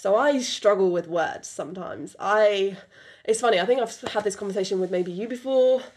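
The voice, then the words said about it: British accent. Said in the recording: “I have this full-on British accent that I've been told many times”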